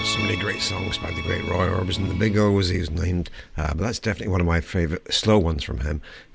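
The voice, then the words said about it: Voice strange from a cold. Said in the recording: “my voice is getting a bit strange, definitely got the summertime cold”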